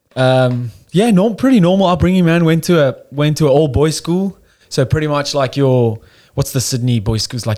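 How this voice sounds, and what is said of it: South African accent. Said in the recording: “I don't know if you can hear by the accent. I'm South African.”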